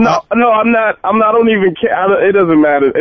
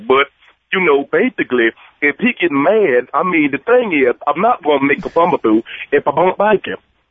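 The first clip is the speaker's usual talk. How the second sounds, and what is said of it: Shannon Sharpe impression. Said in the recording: “your Shannon Sharp impersonation”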